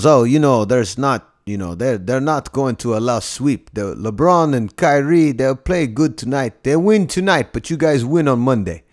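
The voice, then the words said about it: Slightly exaggerated Eastern European accent. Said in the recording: “He's got this, like, you know, Eastern European accent that I'm doing slightly. Just like there's an embellishment to it, but that's basically what he sounds like. ... tall Eastern European man”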